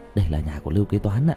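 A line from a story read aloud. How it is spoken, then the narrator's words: Quiet voice. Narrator (Vietnamese): Kỳ thần nhỏ giọng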